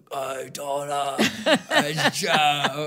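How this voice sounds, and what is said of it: Raspy British man's voice. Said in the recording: “raspy British voice”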